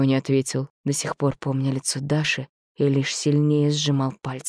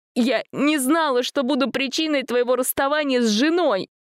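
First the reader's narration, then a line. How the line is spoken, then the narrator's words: Sobbing girl. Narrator (Russian): всхлипнула девушка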